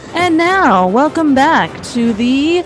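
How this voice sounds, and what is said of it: Mock announcer voice. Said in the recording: “That's my announcer voice. ... You do not have a future as an announcer.”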